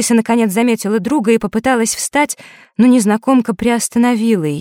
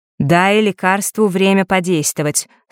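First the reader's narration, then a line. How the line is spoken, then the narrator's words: Stern. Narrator (Russian): строго сказала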